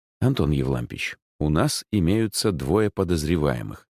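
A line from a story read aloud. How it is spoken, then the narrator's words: Plain. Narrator (Russian): сказал я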